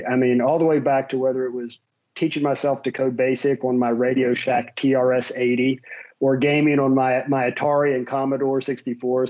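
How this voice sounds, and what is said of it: Slight West Virginia accent. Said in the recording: “If you pick up on a bit of an accent, that comes from my West Virginia upbringing.”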